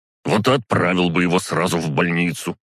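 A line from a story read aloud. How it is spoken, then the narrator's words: Barked. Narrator (Russian): рявкнул он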